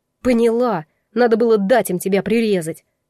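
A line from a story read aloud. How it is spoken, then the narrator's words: Furious ringing bark. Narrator (Russian): Звенящим от ярости голосом рявкнула я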